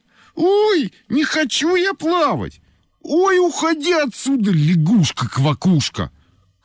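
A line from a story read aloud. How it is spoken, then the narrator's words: Shouted. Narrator (Russian): крикнула Олька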